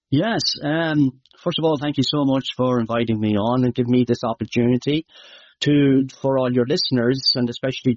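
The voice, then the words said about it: Irish Midlands accent. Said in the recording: “some of your Irish might know, my accent might be hard to understand ... It's in the Midlands of Ireland”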